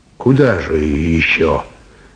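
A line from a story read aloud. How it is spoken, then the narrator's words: Sighing. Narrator (Russian): вздохнул Степан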